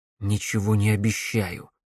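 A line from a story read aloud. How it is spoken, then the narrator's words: Grumbling mutter. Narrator (Russian): буркнул Алекс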